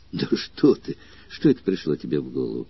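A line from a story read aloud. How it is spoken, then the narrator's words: Trembling voice. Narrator (Russian): дрожащим голосом ответил Митробий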